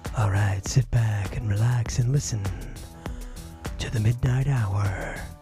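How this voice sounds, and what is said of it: Late-night FM radio DJ voice. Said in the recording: “podcast voice. This is my late 70s, early 80s Southern California, middle of the night FM radio DJ voice.”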